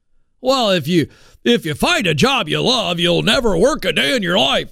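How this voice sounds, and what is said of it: Mock Southern accent. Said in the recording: “I'm from the South. I can make fun of Southern accents.”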